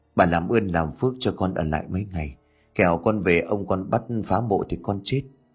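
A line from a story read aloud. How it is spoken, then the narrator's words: Trembling, pleading. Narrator (Vietnamese): Nhẫn run rẩy co lại gật đầu rồi khẩn khoản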